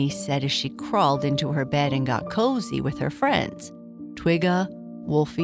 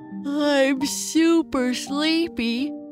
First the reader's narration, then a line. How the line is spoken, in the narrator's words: Papa Bear said as he covered his mouth while he yawned